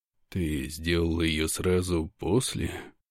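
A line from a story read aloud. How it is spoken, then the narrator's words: Quiet question. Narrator (Russian): Спрашиваю я тихо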